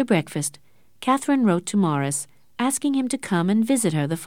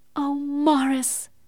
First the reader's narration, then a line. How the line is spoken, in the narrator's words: cried Catherine